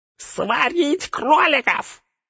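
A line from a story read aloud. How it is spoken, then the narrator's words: Shrill squeal. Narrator (Russian): взвизгнул горлом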